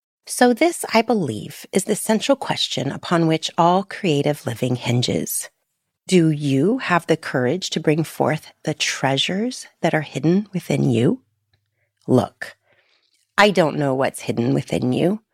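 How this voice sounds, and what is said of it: Deliberate reading-aloud voice. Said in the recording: “put on my reading voice”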